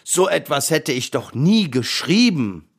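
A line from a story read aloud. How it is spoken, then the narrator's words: Lion's roar. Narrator (German): brüllte der Löwe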